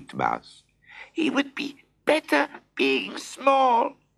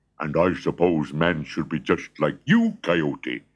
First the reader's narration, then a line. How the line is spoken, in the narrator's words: growled Honey Bear